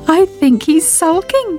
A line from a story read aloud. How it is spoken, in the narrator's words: giggled Sybil